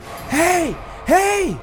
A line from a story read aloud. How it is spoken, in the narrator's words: Sarah yelling